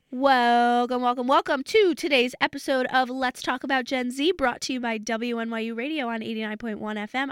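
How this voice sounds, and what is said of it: Voice sounds sick with a cold. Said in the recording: “I have a cold. I have a little bit of a chill in my body, so sorry for the disgusting sound of my voice.”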